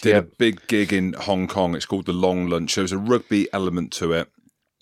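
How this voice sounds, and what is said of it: English accent with a twang. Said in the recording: “I've got an English accent, as you can tell by the twang.”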